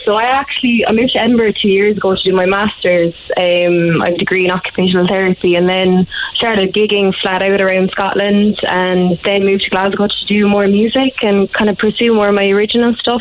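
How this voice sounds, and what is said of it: Irish accent, hard for Scots. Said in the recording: “do they think you have a funny accent?... Oh yeah, all the time... They do love the accent, though... they don't really understand my accent”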